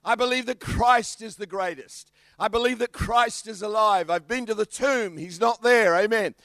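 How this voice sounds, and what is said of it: Australian accent. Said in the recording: “He can hear my kangaroo accent. ... I'm from Australia.”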